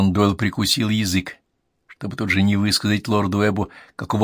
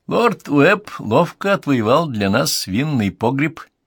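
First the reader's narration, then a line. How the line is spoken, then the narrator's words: Giggling. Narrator (Russian): хихикнул сэр Уильям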